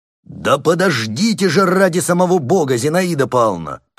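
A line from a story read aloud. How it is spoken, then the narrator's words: Nearly shouting. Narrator (Russian): почти закричал Кашперов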